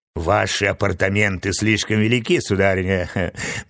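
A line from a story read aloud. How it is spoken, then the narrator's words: Mocking woman's remark. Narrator (Russian): насмешливо заметила красавица Стелла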